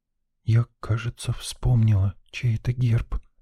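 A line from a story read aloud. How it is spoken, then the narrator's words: Reverent whisper. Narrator (Russian): прошептала Лена, благоговейно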